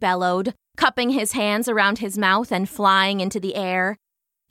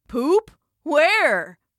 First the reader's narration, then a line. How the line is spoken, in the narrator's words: shouted someone else